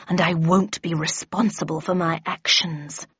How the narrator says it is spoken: growled the Red Queen

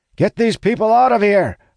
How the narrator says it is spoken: I shout

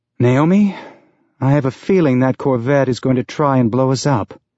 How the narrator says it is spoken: Holden said with a sigh

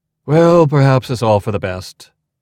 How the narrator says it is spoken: Archibald sighed

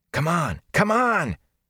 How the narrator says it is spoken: Matt panted the words

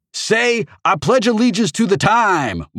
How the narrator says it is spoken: Morris shouted

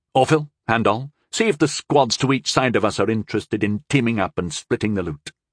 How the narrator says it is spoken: he said quickly

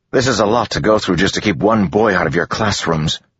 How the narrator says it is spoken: Joel snapped

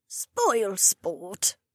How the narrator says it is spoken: the loud old woman muttered

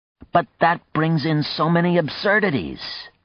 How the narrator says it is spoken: John exclaimed

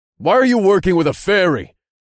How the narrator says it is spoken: I asked loudly

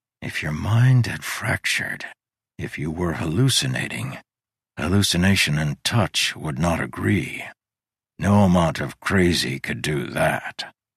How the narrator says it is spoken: He whispered to himself

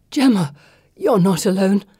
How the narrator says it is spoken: Cersei gasps

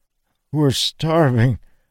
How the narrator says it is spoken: the man groaned

